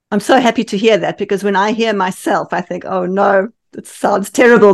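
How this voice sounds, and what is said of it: South African accent. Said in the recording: “as you might hear in my accent, I'm actually South African.”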